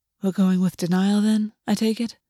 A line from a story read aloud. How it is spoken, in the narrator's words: August whispered against his mouth